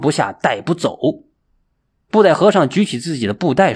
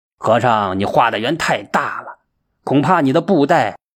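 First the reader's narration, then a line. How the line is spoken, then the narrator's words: Cold sneering. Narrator (Chinese): 他冷冷一笑，说道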